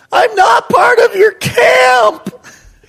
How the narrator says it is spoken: yell in my little 9-year-old

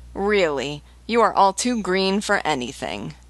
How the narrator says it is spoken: Loiseau writhing with laughter, exclaimed

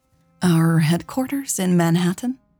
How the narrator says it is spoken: She replied hesitantly

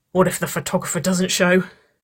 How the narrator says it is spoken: Nicole laughed

